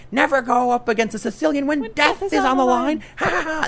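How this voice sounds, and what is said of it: Imitates a movie villain's voice. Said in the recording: “That was a pretty good impression.”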